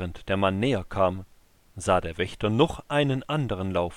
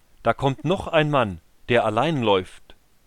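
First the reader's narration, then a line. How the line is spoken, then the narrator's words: Calling into the gate. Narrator (German): Er rief ins Tor hinein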